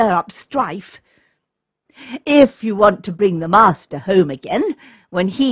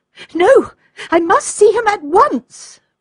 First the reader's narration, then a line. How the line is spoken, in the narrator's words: cried Olga